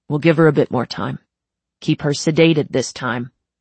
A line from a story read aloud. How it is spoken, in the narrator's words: he told Viola sternly